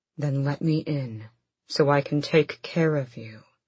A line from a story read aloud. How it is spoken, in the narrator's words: he said as calmly and rationally as he could